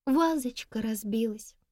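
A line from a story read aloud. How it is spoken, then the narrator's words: Sorrowful tone. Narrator (Russian): горестным тоном проговорила она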